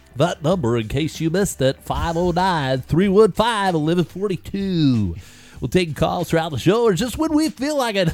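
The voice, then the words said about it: Put-on radio announcer voice. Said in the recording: “That was my radio voice.”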